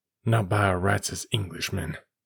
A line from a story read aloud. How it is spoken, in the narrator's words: muttered